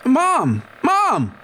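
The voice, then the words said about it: Shouting. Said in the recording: “Why are you shouting?”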